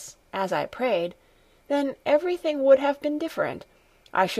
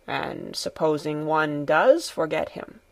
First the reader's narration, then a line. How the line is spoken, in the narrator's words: said the grandfather in a low voice